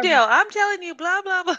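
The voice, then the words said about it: Chatty Southern American woman voice. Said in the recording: “Southern? ... I think I'm adding more Southern than necessary. ... I do a voice ... it was definitely like chatty lady. ... Very, very chatty American woman.”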